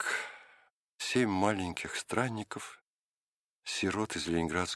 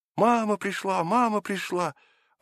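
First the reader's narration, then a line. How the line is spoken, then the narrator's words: Joyful child's shout. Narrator (Russian): мальчик радостно закричал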